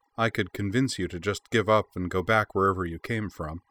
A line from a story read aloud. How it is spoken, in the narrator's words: she said, keeping her voice even